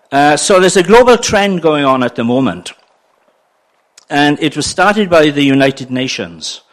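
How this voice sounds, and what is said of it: Welsh accent. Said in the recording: “I'm a Welshman, and if you struggle with my accent”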